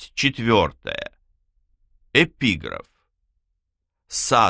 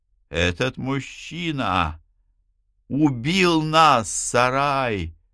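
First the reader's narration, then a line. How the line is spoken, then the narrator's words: Hissing. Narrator (Russian): прошипела она, вновь обретя дар речи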